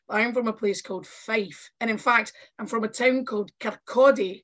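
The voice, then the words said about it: Scottish accent. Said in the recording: “I'm from uh, Scotland, obviously, with this accent.”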